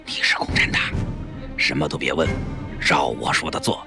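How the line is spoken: Surprised, hushed voice. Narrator (Chinese): 薛家记吃惊地，压低声音

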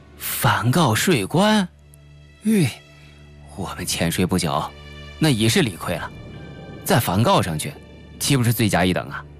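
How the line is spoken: Tsking, sighing. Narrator (Chinese): 陈大毛一啧舌，摇头接叹

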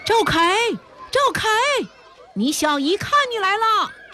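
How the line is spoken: Students shouting together. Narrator (Chinese): 那些学生也一起喊起来

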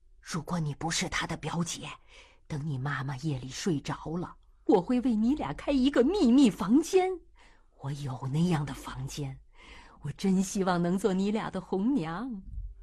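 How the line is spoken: Quiet whisper. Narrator (Chinese): 对月月小声说道

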